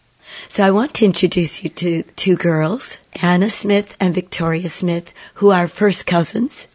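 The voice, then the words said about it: Hoarse, croaking voice. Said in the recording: “please forgive my very hoarse voice ... my croaking voice”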